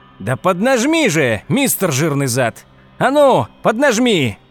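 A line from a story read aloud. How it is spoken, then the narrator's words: Shout. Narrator (Russian): кричал Хауэлл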